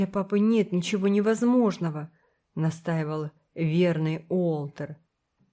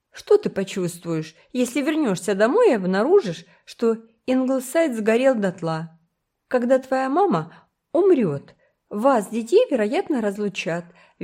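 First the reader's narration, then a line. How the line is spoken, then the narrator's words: Cheerful suggestion. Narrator (Russian): весело предложила Кора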